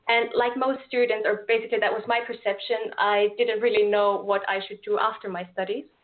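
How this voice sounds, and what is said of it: Austrian-accented English. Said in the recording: “as you might be able to tell from my accent, I'm not from Portugal myself. I'm from Austria”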